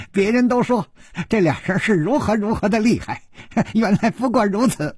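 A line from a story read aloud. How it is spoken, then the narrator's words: Giggling. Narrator (Chinese): 只听一个人咯咯地笑着说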